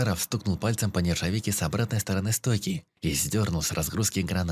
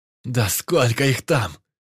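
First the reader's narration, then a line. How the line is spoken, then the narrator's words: Roaring. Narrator (Russian): проревел Крас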